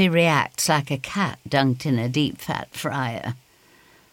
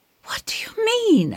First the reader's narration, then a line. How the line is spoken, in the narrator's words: I gasp